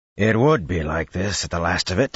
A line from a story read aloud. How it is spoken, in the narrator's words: Bashir growled